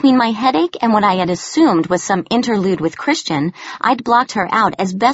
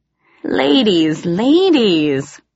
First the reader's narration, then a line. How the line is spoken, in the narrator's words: he said teasingly